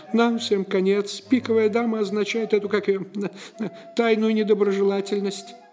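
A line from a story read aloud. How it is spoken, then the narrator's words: Monotone babbling. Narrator (Russian): монотонно лепетал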